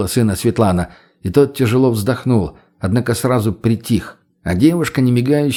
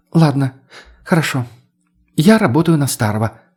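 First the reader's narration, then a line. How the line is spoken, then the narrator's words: Exasperated exhale. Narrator (Russian): выдохнула та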